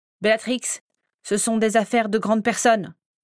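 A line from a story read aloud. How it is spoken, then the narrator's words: Impatient scolding. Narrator (French): gronda Walburga, qui commençait à perdre patience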